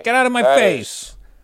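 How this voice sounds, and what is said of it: New York guy accent. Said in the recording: “I just made him like a New York, lean in. Like a New York guy, like a hey.”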